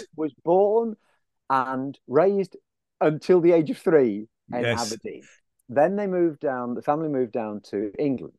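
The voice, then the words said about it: Scottish accent. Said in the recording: “the Scottish accent”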